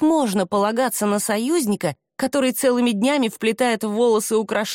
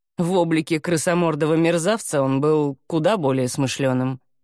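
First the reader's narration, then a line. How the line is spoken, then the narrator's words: Grumble. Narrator (Russian): проворчал Халахель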